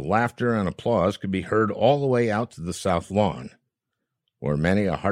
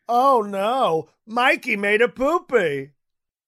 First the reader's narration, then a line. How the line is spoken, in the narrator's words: yelling